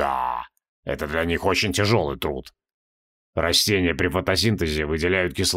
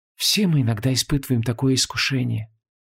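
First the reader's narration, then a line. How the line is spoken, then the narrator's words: Sighing. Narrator (Russian): вздохнула Инанна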